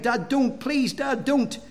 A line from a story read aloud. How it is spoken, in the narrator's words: my boys near cried